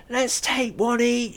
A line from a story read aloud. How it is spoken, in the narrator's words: cried